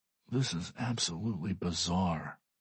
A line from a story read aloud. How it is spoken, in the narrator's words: mutters one of the board members